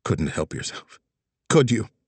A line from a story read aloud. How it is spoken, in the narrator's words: Tessa muttered